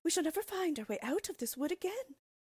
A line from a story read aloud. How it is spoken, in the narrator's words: cried Gretel, beginning to weep